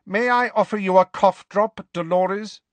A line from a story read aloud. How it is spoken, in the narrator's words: Professor McGonagall asked curtly